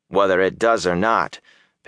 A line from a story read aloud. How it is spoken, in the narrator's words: Perrin said dryly